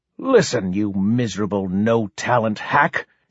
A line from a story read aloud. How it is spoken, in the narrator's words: she hissed